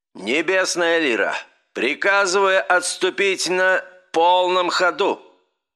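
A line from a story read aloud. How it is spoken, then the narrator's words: Booming, slight stumble. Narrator (Russian): прогремел голос командующего адмирала, слегка запнувшись на слове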